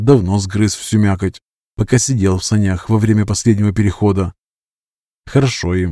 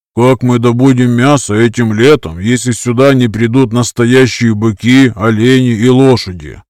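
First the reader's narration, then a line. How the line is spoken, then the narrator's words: Grumbling. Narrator (Russian): проворчал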